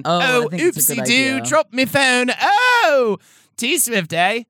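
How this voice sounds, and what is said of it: Put-on posh British accent. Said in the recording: “I'm gonna do a British accent too. I think just to kind of make it seem like I'm a little more highfalutin... sound like Mrs. Doubtfire”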